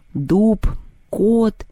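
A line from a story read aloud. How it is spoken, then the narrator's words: Strained, forced out. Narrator (Russian): выдавила из себя Люба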